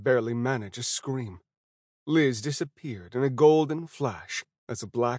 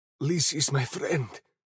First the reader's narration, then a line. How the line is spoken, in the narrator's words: whispered